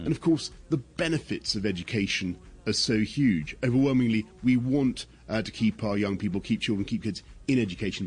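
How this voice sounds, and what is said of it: British English accent. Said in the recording (Spanish): “ese, ese acento tan característico del señor Boris Johnson ... British ... muy British”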